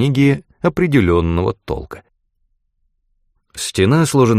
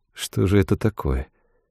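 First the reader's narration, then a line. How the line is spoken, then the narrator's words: Barely audible mutter. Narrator (Russian): чуть слышно пробормотал Трегис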